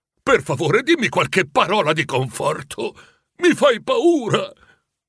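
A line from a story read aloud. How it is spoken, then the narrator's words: Pleading. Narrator (Italian): supplicò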